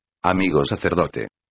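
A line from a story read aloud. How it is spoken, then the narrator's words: Plain. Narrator (Spanish): dijo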